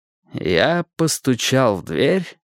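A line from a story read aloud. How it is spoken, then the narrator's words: Slow speech. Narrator (Russian): медленно проговорил Перри Мейсон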